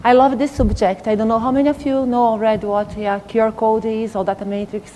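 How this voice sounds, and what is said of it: Non-native English accent. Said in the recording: “I'm sorry I have accent ... I have tried all my life to get rid of it”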